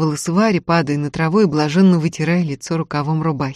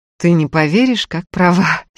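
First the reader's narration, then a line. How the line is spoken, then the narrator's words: Laughing. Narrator (Russian): смеялся Сергей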